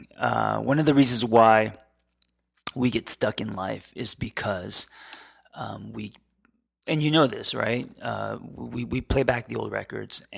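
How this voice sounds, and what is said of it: Crackling voice. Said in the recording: “my voice is crackling”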